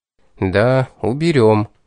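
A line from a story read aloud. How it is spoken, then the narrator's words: Sighing. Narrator (Russian): вздохнул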